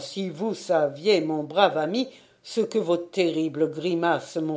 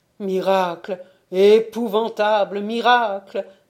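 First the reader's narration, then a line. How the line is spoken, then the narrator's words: Terrified cry. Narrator (French): s'écria-t-il plein de terreur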